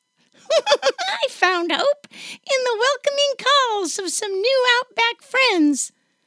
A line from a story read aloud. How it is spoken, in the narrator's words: A little joey squeaks